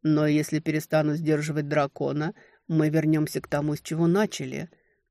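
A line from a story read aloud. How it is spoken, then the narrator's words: Husky enveloping voice. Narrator (Russian): звучал, обволакивая хрипотцой, как снежной крошкой голос ледяного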